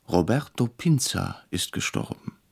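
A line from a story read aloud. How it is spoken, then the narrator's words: Quiet, startled. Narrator (German): erschrocken, sagte leise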